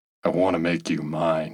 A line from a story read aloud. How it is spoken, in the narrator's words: said, his voice husky and low